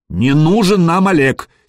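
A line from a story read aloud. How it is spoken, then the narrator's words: Angry. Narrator (Russian): сердито проговорил Гадимир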